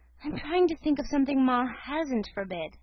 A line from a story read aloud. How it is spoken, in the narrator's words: she answered with a sigh